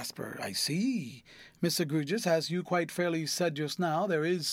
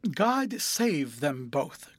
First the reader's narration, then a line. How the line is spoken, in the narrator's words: cried